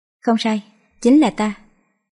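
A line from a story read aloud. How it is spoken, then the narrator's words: Slight smile. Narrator (Vietnamese): Cố Lưu Niên hơi mỉm cười nói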